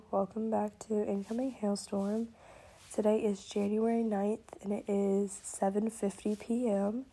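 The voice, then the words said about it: Rough, deeper voice from illness. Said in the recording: “my voice is kind of not good ... the deeper voice and the cough”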